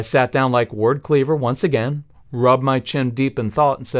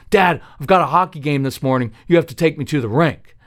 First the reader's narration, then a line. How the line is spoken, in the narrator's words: Casey barked out